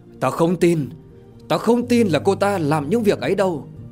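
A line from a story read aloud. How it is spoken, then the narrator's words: Angry shout. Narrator (Vietnamese): Thái kiếm nhướng mày, giận dữ mà quát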